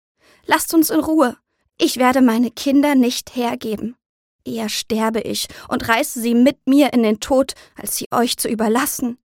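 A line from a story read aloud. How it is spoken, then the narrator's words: Trembling cry. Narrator (German): ruft sie mit zitternder Stimme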